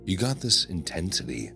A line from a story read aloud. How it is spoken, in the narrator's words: Lena murmured